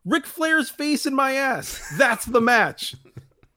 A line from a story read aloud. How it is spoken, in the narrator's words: Dusty yells back